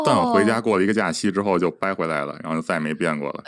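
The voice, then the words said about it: Strong Beijing accent. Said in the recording (Chinese): “北京话还是挺浓厚的，没有那种台湾腔的感觉”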